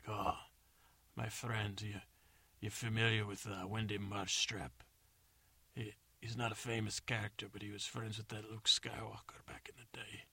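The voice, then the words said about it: Put-on bad accent. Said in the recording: “that horrible accent”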